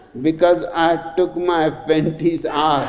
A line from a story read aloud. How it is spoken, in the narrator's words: says the girl, giggling to herself